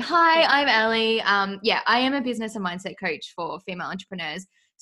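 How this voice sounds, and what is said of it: Australian accent. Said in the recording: “Obviously, I'm from Australia, as you can tell by my lovely accent. I know people comment on it all the time. Like, I love your accent.”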